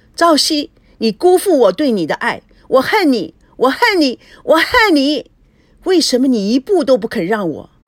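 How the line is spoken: Hysterical furious scream. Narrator (Chinese): 她不相信自己真的离婚了，气得孙娜歇斯底里的狂叫

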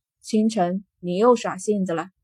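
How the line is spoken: Calm, detached. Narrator (Chinese): 南宫勋淡淡的开口

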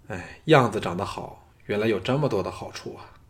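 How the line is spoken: Sighing. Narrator (Chinese): 藤毅叹道

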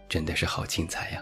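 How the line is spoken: Admiring exclamation. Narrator (Chinese): 不得不感叹一句

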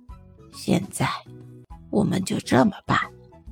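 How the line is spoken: Boss whispering. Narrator (Chinese): 老板附在小王耳边轻声说

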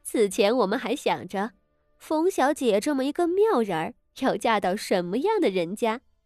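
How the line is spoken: Laughing woman. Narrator (Chinese): 立即有一位贵妇笑道

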